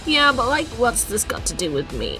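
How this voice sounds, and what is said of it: Character voice with vocal fry. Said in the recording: “Just because I've got vocal fry”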